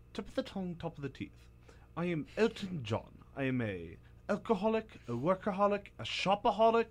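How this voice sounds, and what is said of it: Bad put-on British accent. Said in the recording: “This is a really bad British accent.”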